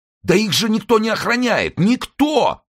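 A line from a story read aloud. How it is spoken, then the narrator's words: Shout. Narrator (Russian): закричал он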